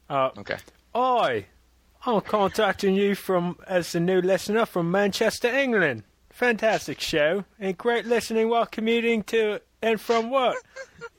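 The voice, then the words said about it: Put-on English accent. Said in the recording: “read this in your English accent”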